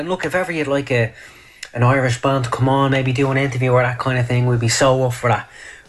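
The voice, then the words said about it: Irish accent. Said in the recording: “that is a good accent. ... It is, isn't it? ... It's great,”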